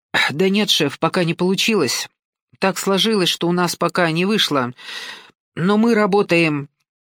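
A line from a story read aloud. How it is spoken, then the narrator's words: Glum mumbling. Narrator (Russian): Долговязый бандит уныло потупился и забормотал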